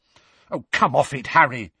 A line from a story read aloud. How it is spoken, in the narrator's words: said Hermione angrily